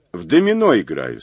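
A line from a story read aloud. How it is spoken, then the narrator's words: Plain. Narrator (Russian): сказал Мазур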